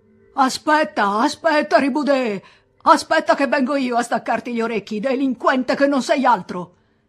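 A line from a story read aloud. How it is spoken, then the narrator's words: Priest shouting, overflowing anger. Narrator (Italian): attaccò a gridare il prete con voce traboccante di collera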